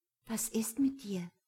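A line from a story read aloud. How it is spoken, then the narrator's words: Quiet question. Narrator (German): fragte leise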